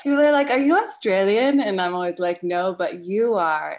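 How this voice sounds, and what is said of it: Mixed British and North American accent. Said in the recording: “people get very confused about my accent all the time ... I've got this like really Anglo chameleon thing going on”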